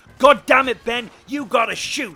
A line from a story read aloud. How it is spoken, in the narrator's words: screamed